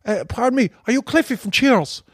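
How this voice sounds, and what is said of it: Put-on Cork accent. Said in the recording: “They couldn't believe I could do a Cork accent.”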